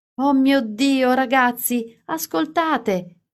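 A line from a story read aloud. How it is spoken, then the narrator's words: Exclaiming. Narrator (Italian): esclamava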